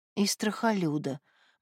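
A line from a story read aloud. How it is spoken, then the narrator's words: Gloomy. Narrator (Russian): мрачно добавила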